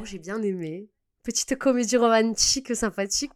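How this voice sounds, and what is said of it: Put-on Marseille accent. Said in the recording (French): “je prends un accent marseillais... des fois je prends des accents chelous”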